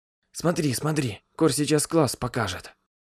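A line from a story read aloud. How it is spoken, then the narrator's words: Whisper, girl. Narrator (Russian): прошептала остроушка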